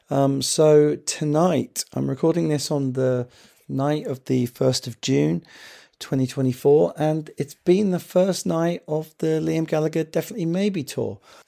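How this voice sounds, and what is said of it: Hoarse, worn-out voice from a cold. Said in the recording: “as you can hear, my voice is absolutely knackered. I've had a bit of a cold”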